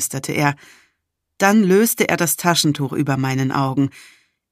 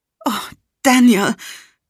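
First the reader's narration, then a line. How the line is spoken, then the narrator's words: Gasping. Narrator (German): keuchte ich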